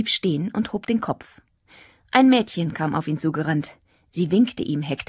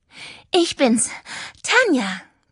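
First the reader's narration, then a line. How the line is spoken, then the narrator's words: Breathless panting. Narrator (German): keuchte, als sie bei ihm angekommen war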